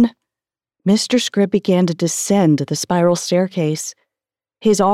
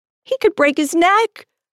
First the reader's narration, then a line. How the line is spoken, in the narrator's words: I cried